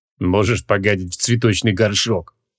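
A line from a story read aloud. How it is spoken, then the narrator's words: Absent-minded snort. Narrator (Russian): рассеянно хмыкнул Криол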